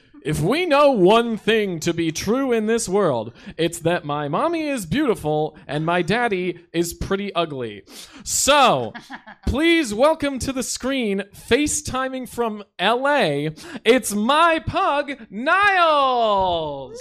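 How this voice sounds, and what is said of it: Announcer voice. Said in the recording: “read in an announcer voice”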